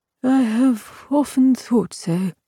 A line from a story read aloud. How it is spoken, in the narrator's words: he said sadly